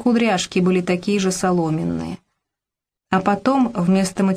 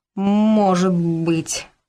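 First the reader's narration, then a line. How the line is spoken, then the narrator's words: Drawn-out. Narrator (Russian): протянул Робка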